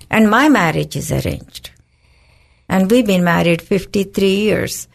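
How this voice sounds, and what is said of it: Indian accent. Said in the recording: “you can tell by my accent, I'm a foreigner, in the sense I was born in another country, India”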